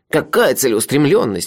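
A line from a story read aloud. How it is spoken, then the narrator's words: Exclamation. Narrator (Russian): воскликнул Мелифара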